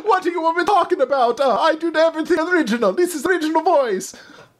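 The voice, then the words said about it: Put-on Italian accent. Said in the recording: “Then she starts speaking in an Italian accent, too... like it's a Sicilian accent”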